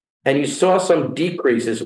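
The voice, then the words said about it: Queens New York accent. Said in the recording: “my Queen's accent just came out... my Queen's accent”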